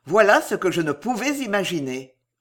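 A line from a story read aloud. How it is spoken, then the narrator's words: Harsh, gruff. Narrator (French): dit le ministre d'une voix rude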